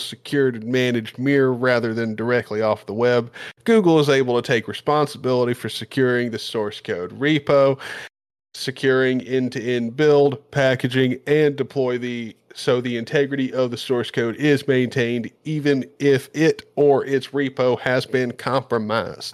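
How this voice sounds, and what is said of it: Put-on Southern US accent. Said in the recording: “what made that quote best was the accent ... Some southern guy ... took over his place ... He's from Tennessee. I mean, that's how he's actually supposed to sound.”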